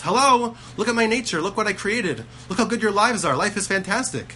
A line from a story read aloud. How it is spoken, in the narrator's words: He's screaming and He's banging and He's yelling at us